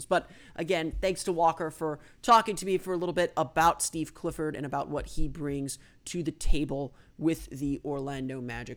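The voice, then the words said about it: Smooth, mellow radio-announcer voice. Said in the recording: “I'll use my smooth jazz NPR voice for a little while”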